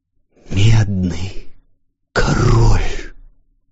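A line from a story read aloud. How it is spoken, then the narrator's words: Broken whisper. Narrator (Russian): послышался прерывающийся шепот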